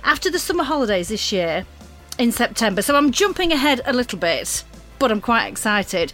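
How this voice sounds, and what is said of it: Northern English accent. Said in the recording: “with a northern accent”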